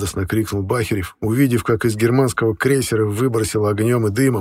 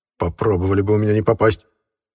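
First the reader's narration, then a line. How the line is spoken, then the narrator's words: Muttering under breath. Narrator (Russian): буркнул под нос Пышнов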